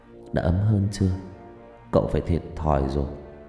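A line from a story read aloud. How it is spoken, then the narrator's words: Muttering young man. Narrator (Vietnamese): cậu miệng lẩm bẩm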